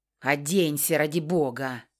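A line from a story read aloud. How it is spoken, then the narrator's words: Annoyed mutter. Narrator (Russian): Досадливо пробормотал он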